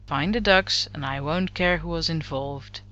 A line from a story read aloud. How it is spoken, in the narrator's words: Lorne said with a sigh